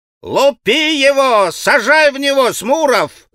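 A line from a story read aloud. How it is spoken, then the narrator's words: Crowd shouting. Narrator (Russian): закричали все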